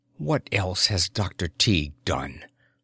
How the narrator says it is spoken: Her tone was chill in the dark

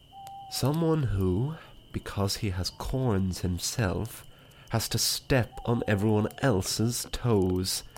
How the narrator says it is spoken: whispered the Roman candle astutely

